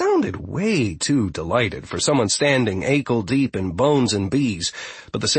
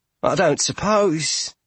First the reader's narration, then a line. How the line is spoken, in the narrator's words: Poltro said, nervously eyeing the swarm around her